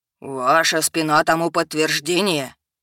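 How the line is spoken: Clear authoritative proclamation. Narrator (Russian): Четко поставленным голосом вещал ректор

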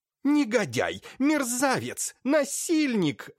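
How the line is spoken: Loud screaming. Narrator (Russian): орала на весь дом Лаевская

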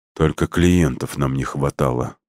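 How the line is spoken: Muttered. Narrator (Russian): пробормотал Макс

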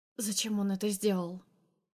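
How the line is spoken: Hoarse question. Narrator (Russian): спрашиваю осипшим голосом

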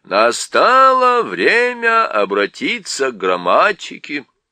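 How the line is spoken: Loud voice. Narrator (Russian): произнес доктор Корнелиус громким голосом

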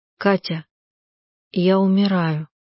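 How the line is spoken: Quiet. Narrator (Russian): сказала она негромко

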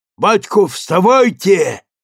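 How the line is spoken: Frantic yell. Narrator (Russian): неистово завопил Кныш

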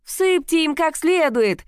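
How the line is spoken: Woman shouting out. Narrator (Russian): выкрикнула какая-то женщина

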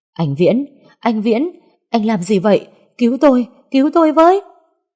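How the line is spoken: Loud panicked shout. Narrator (Vietnamese): Ông ta ôm bàn tay nhầy nhụa hét ầm lên

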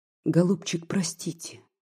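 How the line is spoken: Quiet, impulsive, passionate. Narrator (Russian): тоже тихо, но порывисто и страстно проговорила она

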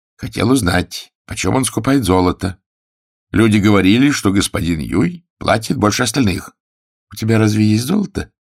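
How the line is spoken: Plain. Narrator (Russian): спросил Пэн Гун

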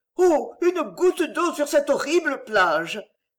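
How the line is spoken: Anguished cry. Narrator (French): cria-t-elle angoissée en voyant qu'il allait à nouveau s'évanouir

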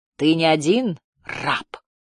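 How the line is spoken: Hissed. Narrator (Russian): прошипел голос

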